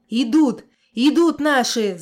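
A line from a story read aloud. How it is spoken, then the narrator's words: Yelled. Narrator (Russian): заорал Зоб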